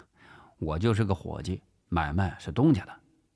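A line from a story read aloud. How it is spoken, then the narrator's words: Calm indifferent reply. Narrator (Chinese): 陈发斌淡淡的回答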